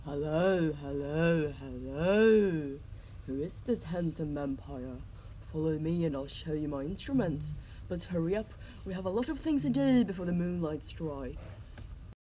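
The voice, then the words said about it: Slow British accent. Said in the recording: “with a slow and British... Oh, that accent.”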